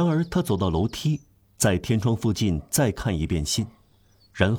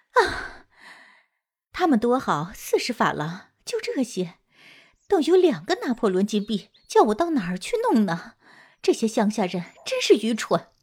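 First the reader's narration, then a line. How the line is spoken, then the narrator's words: Laughing loudly. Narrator (Chinese): 他放声大笑，对邻居老太婆说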